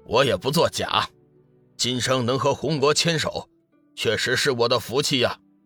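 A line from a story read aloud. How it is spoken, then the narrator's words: Laughing. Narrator (Chinese): 紫云真人笑道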